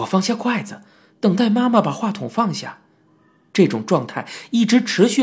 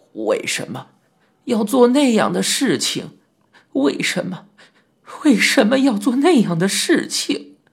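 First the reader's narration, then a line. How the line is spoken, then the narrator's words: Sobbing like a child. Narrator (Chinese): 妈妈像孩子一样抽泣着，反复的说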